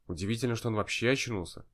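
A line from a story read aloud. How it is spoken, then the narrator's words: Quiet. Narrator (Russian): сказал он мне тихо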